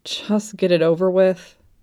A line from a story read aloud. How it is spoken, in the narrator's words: Kim Dokja sighed